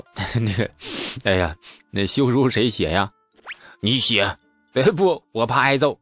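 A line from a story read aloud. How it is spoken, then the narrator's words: Mischievous laughing. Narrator (Chinese): 李素很不厚道的笑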